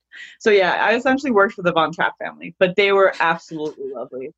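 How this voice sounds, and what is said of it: American accent. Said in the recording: “my American accent ... I have an American accent through and through and through”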